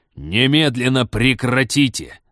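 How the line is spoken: Barked. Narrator (Russian): рявкнул Станислав

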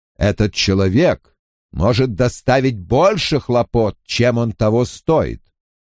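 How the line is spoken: Loud snort. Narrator (Russian): Найнев громко фыркнула

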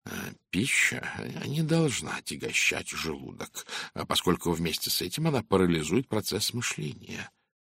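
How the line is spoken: Didactic, lecturing tone. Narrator (Russian): произнес Пуаро назидательным тоном

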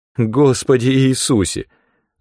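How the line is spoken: Whimpering. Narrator (Russian): захныкала она

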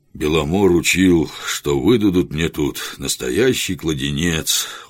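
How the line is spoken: Tired. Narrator (Russian): устало сказал Жихарь

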